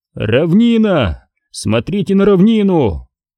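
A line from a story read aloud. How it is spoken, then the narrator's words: Panicked soldier shouting. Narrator (Russian): крикнул один из легионеров с нотками паники в голосе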